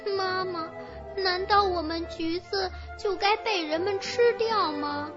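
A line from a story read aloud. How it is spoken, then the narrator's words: Crying. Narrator (Chinese): 他哭着对橘子树说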